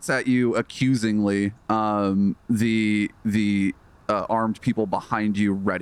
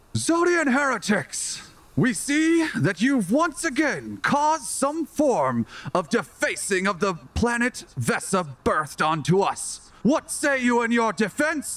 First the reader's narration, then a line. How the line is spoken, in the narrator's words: The man in the priesty outfit shouts, and he says